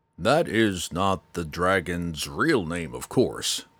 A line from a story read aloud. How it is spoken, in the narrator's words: Mateus went on between the grunts as he struggled with Jenkin